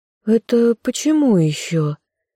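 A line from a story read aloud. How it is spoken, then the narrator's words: Puzzled drawl. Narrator (Russian): Девушка протянула недоуменно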